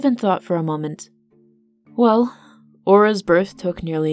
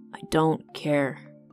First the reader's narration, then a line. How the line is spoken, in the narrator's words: Seb mumbled